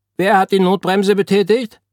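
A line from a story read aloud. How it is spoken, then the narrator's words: Urgent shout. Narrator (German): Zugführerin, die hereinstürmte und rief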